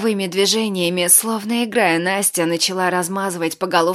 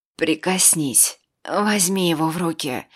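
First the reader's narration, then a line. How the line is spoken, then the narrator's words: Slurred hoarse croak. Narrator (Russian): С трудом ворочая языком, прохрипел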